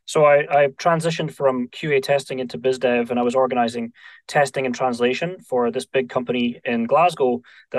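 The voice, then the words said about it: Scottish accent. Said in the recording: “you can hear from the accent, you know, Scottish.”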